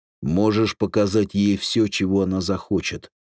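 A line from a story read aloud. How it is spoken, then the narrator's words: Plain. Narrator (Russian): сказал Эндрюс Роберту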